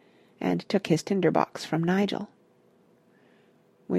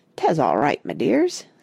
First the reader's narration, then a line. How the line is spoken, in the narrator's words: said he, in a thickening Devon accent